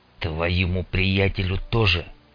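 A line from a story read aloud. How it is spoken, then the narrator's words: Through gritted teeth. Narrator (Russian): процедил сквозь зубы Карташов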